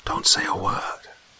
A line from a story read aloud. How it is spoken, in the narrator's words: I whispered